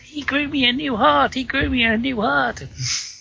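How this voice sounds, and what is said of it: Ominous weird voice. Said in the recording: “I got the ominous feel. I got that weird voice in my head.”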